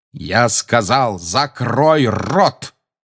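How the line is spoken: Barking shout. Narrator (Russian): рявкнул он опять

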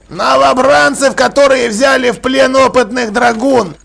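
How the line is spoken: Offended reminder. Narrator (Russian): обиженно напомнил Джекрам

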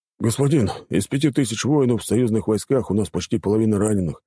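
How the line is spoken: Sighing. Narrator (Russian): вздохнул Дюбер

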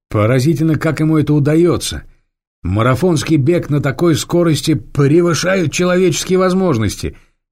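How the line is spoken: Shouting. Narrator (Russian): крикнул Ирас Петрович

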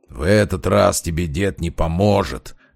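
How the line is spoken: Brute's growl. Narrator (Russian): прорычал амбал

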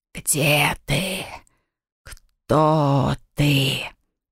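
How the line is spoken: Wind-carried hissing whisper. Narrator (Russian): доносил ветер его свистящий шепот

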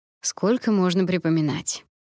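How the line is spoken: Grumbling. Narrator (Russian): проворчал Калид

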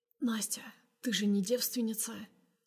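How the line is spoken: Hoarse question. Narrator (Russian): спрашивает осипшим голосом

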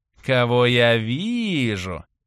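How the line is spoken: Sang out in unctuous voice. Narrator (Russian): елейным голосом пропела Анастасия

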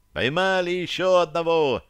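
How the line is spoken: Shouted by several running people. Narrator (Russian): крикнули выбегающие из притвора

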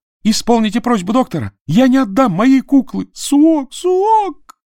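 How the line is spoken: Bursting into sobs. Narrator (Russian): разрыдался он

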